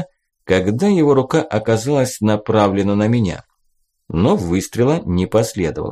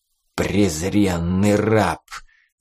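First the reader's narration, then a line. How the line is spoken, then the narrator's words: Angry hiss. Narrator (Russian): злобно прошипел он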